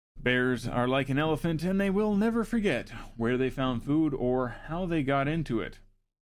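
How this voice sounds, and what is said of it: Sports announcer voice. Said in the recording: “I feel like I'm doing my sports announcer voice today”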